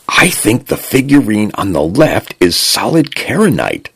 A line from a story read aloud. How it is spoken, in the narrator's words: Jackson murmured into his comm, low enough not to trigger the translation device